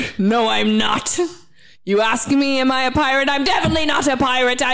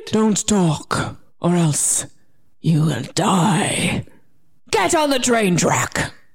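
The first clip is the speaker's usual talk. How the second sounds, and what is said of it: Lowered, deep villain voice. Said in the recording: “I'm gonna lower my voice. ... I'm a villain.”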